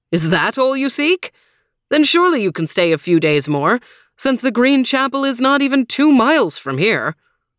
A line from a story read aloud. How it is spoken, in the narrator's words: The lord laughed, surprised, and said